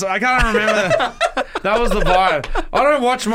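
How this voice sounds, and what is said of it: Usual voice. Nothing is said of it.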